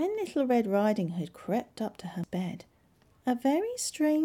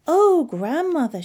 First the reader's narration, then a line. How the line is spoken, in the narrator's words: she cried